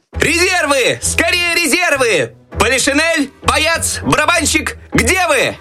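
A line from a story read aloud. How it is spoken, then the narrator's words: Desperate shout. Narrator (Russian): Так отчаянно кричал Щелкунчик, надеясь на помощь еще оставшихся в шкафу войск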